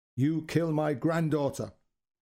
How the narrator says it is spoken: Her voice was firm and crisp

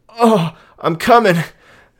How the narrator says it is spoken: Justin exclaimed

